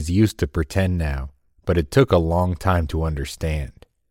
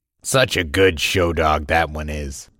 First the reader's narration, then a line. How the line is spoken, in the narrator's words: he chuckled